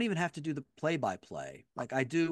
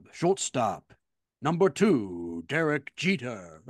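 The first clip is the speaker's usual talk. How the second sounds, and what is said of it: Bob Shepard stadium announcer impression. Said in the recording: “what Bob Shepard used to do at Yankee Stadium ... Good impression.”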